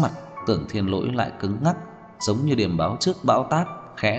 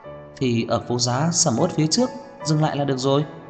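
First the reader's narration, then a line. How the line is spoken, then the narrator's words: Nervous laughter. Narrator (Vietnamese): Đường Khả Hinh trái tim của mình không khỏi run rẩy, ha ha cười nói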